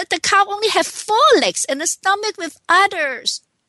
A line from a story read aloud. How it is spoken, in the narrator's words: shouted